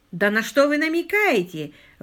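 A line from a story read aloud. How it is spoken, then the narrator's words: Indignant exclamation. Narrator (Russian): воскликнул Каткарт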